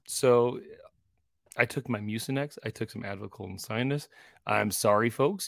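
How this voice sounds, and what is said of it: Cracky voice from a cold. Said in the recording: “I got the cold. And if we were to record last Sunday night, I had no voice. And like my voice is still a little weird right now. ... It's a little, cracky.”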